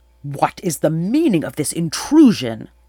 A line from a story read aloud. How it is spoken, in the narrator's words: bellowed